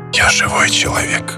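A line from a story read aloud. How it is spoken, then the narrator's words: Whisper. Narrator (Russian): прошептал он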